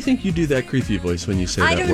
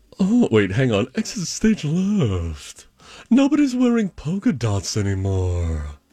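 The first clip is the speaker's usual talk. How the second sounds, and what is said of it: Tim Gunn impression. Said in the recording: “your Tim Gunn voice”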